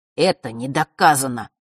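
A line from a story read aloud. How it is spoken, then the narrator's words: Dull, muffled. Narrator (Russian): глухо произнес Фэш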